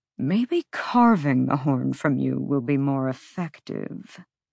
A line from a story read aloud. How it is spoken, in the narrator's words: Micah murmured